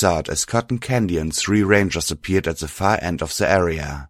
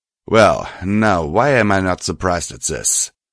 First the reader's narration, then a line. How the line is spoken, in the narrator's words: Cotton Candy said, sneering at the sight of me